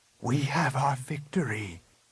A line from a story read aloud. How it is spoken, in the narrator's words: Luke whispered